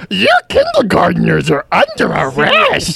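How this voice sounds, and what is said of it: Imitates another person's voice. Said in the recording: “my impression of Arnold Schwarzenegger”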